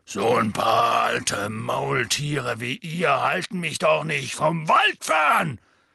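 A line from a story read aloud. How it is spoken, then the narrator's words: Loud. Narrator (German): sagte Hagrid laut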